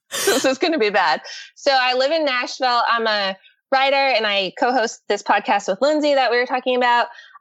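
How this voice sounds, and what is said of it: Breathless, huffing and puffing. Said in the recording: “if you hear me huffing and puffing, it's because my lungs just really don't have a lot of room in there ... I'm like already out of breath.”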